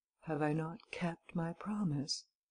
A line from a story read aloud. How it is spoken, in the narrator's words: He repeated in a calm, soft voice